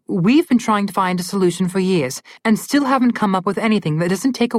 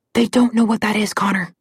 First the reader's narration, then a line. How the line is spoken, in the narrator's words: Alex whispered